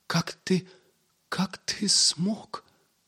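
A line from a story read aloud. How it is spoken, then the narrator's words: Hoarse, forced calm. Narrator (Russian): Стараясь говорить без волнения, прохрипел Пип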